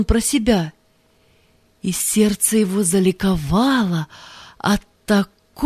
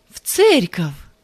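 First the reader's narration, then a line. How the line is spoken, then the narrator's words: Joyful exclamation. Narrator (Russian): воскликнул Павел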